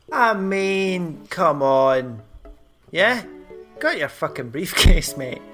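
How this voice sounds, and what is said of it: Rough, roguish put-on accent. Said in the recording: “your rough yet roguish accent”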